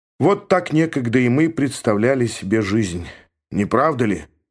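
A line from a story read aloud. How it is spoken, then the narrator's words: Gloomy. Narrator (Russian): мрачно сказал он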